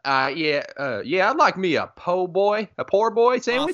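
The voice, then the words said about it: Exaggerated fake Cajun Southern accent. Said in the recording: “with his fake Southern accent ... In my Cajun accent, which is purely authentic”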